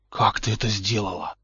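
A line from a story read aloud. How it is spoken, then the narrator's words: Admiring whisper. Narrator (Russian): восхищенно прошептал Поттер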